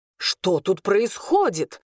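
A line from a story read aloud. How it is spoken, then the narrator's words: Stern bark. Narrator (Russian): строго рявкнул он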